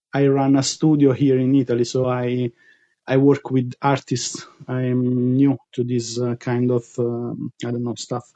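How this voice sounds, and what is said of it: Italian-accented English. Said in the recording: “That's an accent we have not been able to enjoy in our crew... I love your voice... We need some Italians in the mix”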